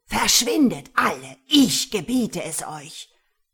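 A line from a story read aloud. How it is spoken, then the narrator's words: Roared. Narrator (German): brüllte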